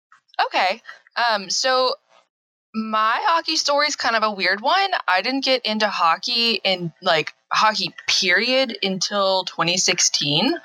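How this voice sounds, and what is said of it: Southern American rural accent. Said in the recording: “I'm currently in Arkansas, born and raised, so if I sound like a hick sometimes, that's why.”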